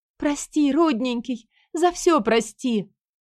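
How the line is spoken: Wailing. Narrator (Russian): взвыла женщина

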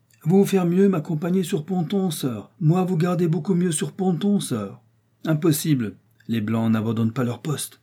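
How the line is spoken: Shouted. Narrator (French): cria-t-il

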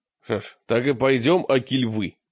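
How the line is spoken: Angry question. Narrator (Russian): спросил мрак сердито

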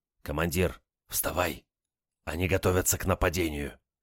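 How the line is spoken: Sentry's whisper. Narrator (Russian): Шепот часового

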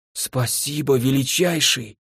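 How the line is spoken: Hoarse, strained. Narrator (Russian): сипло выдавил Люпен

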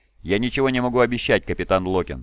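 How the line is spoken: Plain. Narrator (Russian): сказал Ваддон

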